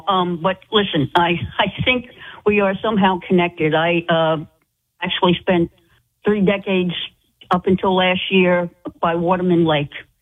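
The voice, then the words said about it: Rhode Island accent. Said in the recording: “I know that accent. I know that accent, darling. I know you're a true Rhode Islander.”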